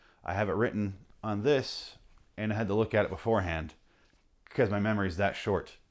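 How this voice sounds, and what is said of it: Usual voice. Nothing is said of it.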